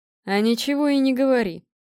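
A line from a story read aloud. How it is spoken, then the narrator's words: Good-natured growl. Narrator (Russian): благодушно рыкнул Гром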